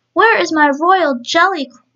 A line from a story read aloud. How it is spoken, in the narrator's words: roared Queen Alia angrily